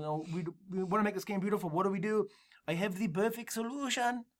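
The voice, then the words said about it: Generic put-on Dutch accent. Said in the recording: “They're from the Netherlands, I think... I'm going to do a generic... I'm going to do an accent anyway”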